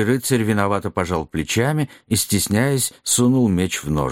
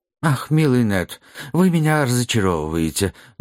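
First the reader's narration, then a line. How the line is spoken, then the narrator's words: Sad agreement. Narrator (Russian): грустно поддержал сэр Люстрицкий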